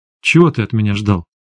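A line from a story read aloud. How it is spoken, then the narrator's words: Sharp question. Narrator (Russian): резко спросила Света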